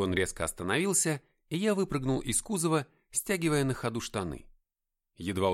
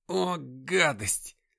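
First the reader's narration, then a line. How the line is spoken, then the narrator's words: Groan. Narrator (Russian): застонал Джим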